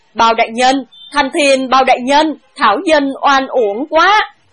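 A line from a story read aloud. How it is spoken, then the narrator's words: Loud, weeping lament. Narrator (Vietnamese): cao giọng vừa khóc vừa kể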